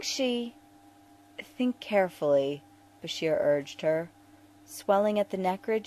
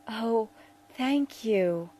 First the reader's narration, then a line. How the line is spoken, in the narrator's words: Neprem said, her voice wavering